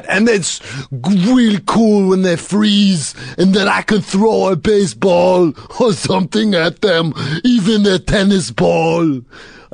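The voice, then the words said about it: Put-on Austrian accent slipping toward French. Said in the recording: “Sound a little French there. What's, you're slipping, your usual Austrian accent sounds a little French.”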